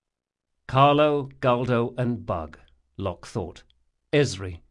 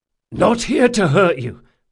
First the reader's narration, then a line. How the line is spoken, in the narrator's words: panted